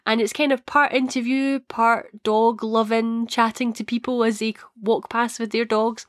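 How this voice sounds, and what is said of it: Scottish accent. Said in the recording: “a few people have said that they enjoy my Scottish accent”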